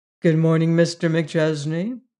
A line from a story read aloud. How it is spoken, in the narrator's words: he made answer smoothly